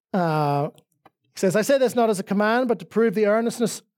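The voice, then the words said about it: Northern Irish accent. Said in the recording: “my Northern Irish accent makes that number hard to say”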